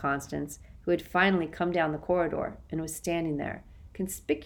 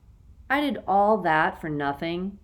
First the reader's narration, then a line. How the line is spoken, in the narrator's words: Kate cried, dismayed